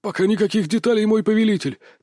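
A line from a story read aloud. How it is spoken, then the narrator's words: Hurried servant. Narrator (Russian): торопливо добавил слуга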